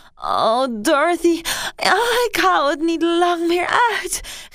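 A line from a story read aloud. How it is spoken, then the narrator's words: Shrieking and groaning. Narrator (Dutch): gilde en steunde Mary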